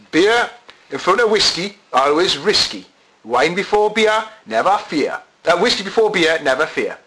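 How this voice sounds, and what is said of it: Gateshead accent. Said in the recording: “Apologies for the Gateshead accent here coming out”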